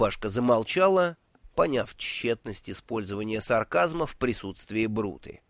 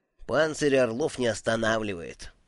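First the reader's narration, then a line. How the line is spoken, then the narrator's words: Gloomy little turtle. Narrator (Russian): мрачно произнесла черепашка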